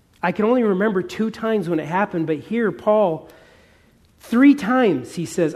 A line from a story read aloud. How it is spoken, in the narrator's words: I pleaded with God